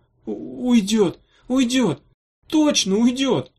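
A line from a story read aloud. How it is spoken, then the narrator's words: Moaning. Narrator (Russian): стонал он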